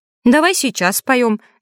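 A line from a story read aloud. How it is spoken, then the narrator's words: Girl's cheerful snort. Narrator (Russian): девчонка весело хмыкнула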